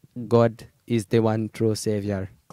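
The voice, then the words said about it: Imitates another person's voice, accented. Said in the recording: “He's got a very special accent. It's kind of hard to do.”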